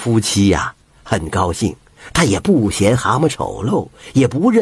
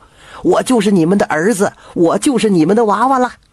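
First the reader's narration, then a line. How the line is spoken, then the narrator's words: Affectionate. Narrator (Chinese): 这亲亲热热的 还对老夫妻说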